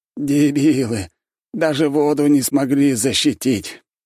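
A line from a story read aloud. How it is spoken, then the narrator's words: Hopeless groan. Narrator (Russian): обреченно простонал второй мужчина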